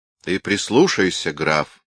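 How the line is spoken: Stern admonition. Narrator (Russian): строго внушила Анна Ивановна

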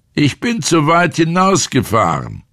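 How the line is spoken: Said aloud. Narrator (German): sagte laut

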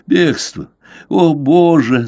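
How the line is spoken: Gasping, sobbing like child. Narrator (Russian): задыхаясь, сказал он и, схватившись за голову, зарыдал, как ребенок

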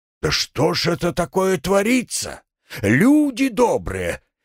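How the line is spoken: Shouted, seeking support. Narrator (Russian): Ища поддержки, прокричал он зрителям

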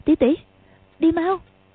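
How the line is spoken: Trembling fearful voice. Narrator (Vietnamese): Quách Tường sợ, run run nói

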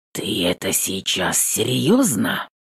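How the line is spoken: Hoarse. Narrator (Russian): Хриплю

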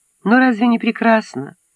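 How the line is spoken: Sighing. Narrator (Russian): вздохнула Нили

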